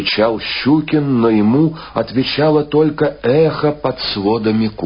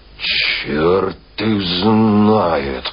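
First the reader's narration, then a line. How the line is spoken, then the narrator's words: Grumbling. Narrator (Russian): ворчал Щукин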